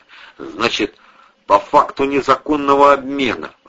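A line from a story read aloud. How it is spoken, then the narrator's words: Forced through clenched jaw. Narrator (Russian): выдавил игра желваками капитан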